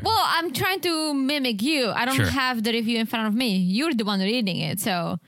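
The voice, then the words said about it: Foreign accent in English. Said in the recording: “10 out of 10 on the accent. ... I always forget about my accent until I hear myself. ... oh, it's a foreigner talking”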